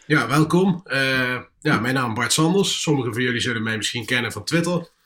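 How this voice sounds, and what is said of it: Nijmegen regional Dutch accent. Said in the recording (Dutch): “kom uit Nijmegen, zoals je hoort ... Je zegt dat je hoort het ... direct een accent.”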